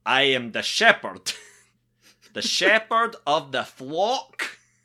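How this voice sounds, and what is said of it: Dwayne Johnson in Scottish accent. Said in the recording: “Dwayne Johnson with a perfect Scottish accent ... I'm gonna step my accent game up ... He's he's on the set of Hobbs and Shaw going”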